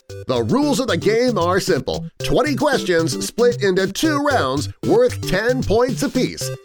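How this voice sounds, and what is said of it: Impression of the rules guy. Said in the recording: “do his best impression of the rules guy”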